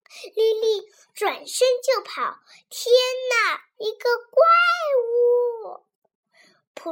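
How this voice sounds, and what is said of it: Usual voice. Nothing is said of it.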